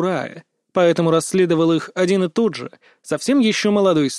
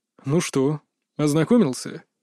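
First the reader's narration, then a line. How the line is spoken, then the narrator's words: Outwardly calm inquiry. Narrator (Russian): С виду спокойно осведомился Кри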